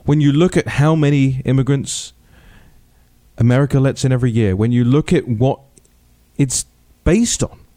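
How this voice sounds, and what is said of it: Non-American foreign accent. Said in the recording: “I say this as somebody who came from somewhere else, as you can probably hear from my accent”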